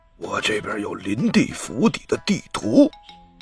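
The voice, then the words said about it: Quiet, secretive whisper. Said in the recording (Chinese): “小声的说道”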